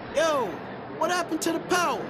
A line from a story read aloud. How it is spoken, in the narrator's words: an angered attendee yelled over the questioning remarks of his fellow patrons